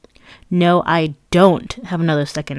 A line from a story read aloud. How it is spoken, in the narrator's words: snapped